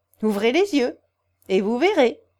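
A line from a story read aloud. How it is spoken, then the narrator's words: Laughing. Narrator (French): répondit Pierre en riant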